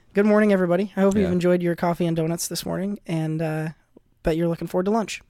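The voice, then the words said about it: Nasal, deeper sick-sounding voice. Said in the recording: “sounds so fucking nasally this morning, I'm dealing with a little bit of an illness this week ... I'm a little under the weather this week, so if my voice sounds a little weird ... your voice is a little deeper than normal”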